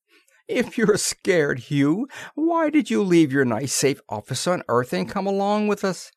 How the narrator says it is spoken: The chubby youth called Robbie laughed loudly

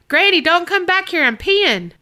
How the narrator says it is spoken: yell out

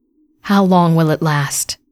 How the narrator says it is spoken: Namia sighed with resignation

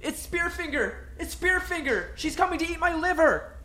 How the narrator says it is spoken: screamed

